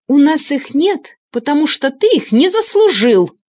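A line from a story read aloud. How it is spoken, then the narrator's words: Angry shout. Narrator (Russian): неожиданно зло выкрикнула Вика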